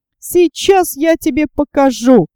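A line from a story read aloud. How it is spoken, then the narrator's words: Shouting. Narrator (Russian): кричал Снус-Мумрик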